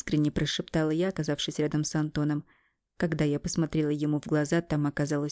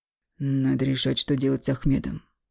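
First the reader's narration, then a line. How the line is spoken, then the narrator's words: Muffled voice. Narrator (Russian): глухо сказал Эмиль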